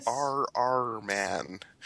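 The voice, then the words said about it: Exaggerated Canadian accent. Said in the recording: “maybe I should just say it in my Canadian accent.”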